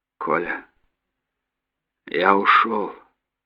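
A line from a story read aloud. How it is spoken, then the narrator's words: Weakened voice. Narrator (Russian): ослабшим голосом проговорил капитан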